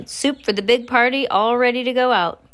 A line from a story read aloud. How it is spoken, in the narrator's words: He shouted